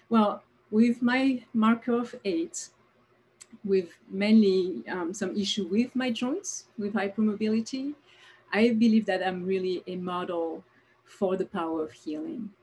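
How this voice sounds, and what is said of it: French accent. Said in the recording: “you must have recognized a French accent. Yes, I was born in France”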